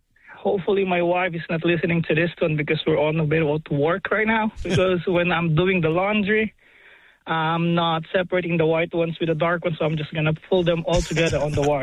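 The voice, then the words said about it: Noticeable accent. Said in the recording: “if you tell me in that accent ... That accent, it's got us.”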